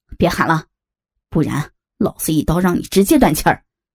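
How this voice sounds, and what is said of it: Vicious, menacing villain voice. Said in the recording (Chinese): “恶狠狠的警告他”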